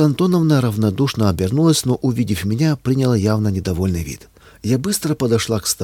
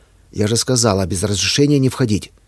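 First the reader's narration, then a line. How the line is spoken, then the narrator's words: Angry reminder. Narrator (Russian): сердито напомнила заведующая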